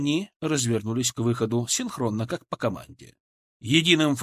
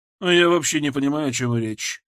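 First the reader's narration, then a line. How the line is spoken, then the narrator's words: Gruff grumble. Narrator (Russian): буркнула Матрона Егоровна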